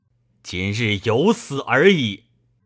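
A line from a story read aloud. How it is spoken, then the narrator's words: Loud. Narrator (Chinese): 公大声曰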